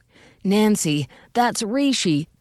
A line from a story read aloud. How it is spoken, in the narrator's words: George exclaimed